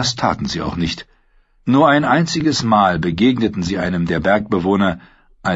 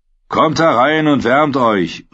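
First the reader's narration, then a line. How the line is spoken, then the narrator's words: Man calling out. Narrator (German): rief ein Mann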